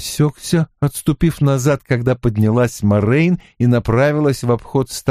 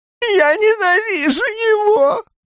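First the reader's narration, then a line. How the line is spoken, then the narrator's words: Whimpering. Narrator (Russian): прохныкал он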